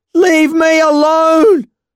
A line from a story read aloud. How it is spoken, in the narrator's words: I howled, the words distorted by my sobs